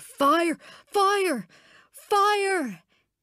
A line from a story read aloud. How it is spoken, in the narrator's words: we could hear him screaming